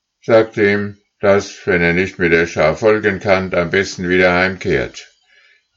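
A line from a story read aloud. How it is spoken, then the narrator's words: Lead goose calling. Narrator (German): rief die Führergans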